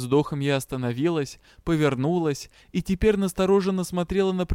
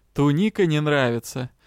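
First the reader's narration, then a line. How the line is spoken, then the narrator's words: Mocking question. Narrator (Russian): насмешливо поинтересовался магистр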